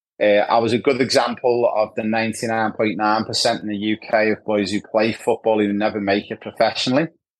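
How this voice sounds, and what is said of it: Liverpool English accent. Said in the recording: “I'm not from Australia, as you can tell. I'm from Liverpool in the UK. The accent's a bit of a giveaway.”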